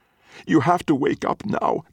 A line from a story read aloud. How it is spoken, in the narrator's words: Dot says, in between choking